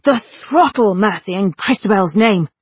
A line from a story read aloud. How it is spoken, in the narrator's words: God roared